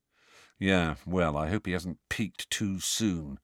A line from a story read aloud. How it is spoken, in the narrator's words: said Fred gloomily